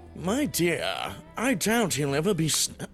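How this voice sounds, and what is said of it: Posh upper-class British accent. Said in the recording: “Give me a very posh British accent ... it got even more upper class”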